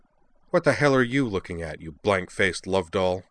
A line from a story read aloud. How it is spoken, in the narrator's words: she snarled